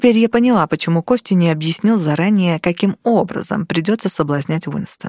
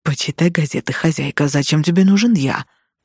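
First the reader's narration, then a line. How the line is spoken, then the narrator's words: Growled. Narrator (Russian): рыкнул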